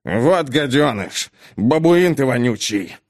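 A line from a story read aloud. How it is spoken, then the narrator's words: Father's spluttering growl. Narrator (Russian): прорычал, захлебываясь слюной папаша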